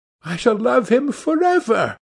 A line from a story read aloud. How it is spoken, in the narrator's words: she cried